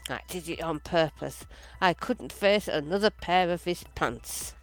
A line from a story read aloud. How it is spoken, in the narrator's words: Washy was heard to mutter